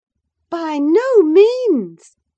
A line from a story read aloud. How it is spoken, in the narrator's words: cried Mrs